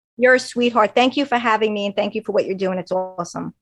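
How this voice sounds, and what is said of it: Long Island accent. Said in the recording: “Long Island accent”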